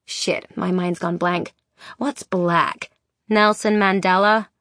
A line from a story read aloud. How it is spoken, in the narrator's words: says Zelly in a bored drawl